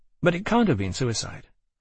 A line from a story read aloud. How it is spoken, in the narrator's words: I said